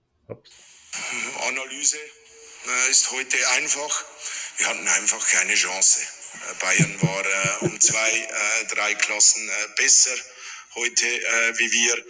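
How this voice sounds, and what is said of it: Thick Swiss accent. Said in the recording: “the dude has a thick Swiss accent”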